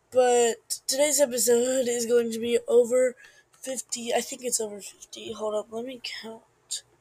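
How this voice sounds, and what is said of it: Losing voice, sounds different. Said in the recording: “my voice sounds like completely different. I'm losing it”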